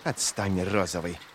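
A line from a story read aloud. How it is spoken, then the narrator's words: Hissed. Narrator (Russian): прошипела Ферро, яростно сжав кулаки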